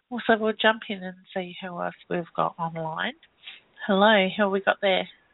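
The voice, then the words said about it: Stuffy, congested voice. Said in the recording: “Sorry about the voice. ... my head's a little bit stuffy at the moment, and I'm trying not to cough on you.”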